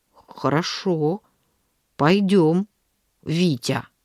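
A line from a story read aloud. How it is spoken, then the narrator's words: Slow, hesitant. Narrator (Russian): Он ответил мне, медленно подбирая слова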